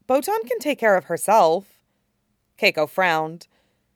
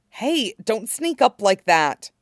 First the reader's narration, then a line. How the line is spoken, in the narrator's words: she hissed